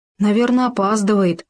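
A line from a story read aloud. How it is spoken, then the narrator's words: Sighing gopher. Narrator (Russian): вздохнул суслик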